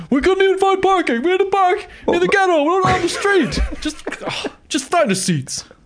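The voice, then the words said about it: Bad imitation of another person's voice. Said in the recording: “the worst Larry David impression ever”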